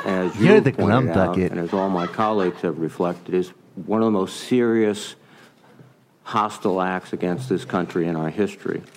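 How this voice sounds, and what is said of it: Strong Rhode Island accent. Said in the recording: “Guy's got a solid Rhode Island accent.”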